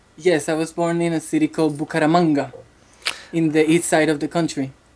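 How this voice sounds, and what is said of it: Spanish-accented English. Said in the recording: “I love the accent ... I hope my Sofia Vergara accent doesn't pop out”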